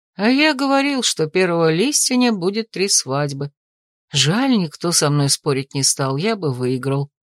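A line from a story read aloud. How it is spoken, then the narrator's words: Sighing. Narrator (Russian): вздохнул Томин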